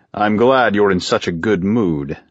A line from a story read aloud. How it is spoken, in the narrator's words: Talos said coldly